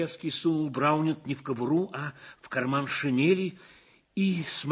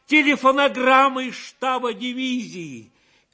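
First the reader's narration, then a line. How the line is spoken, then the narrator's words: Joyful shout. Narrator (Russian): Шаповалов радостно закричал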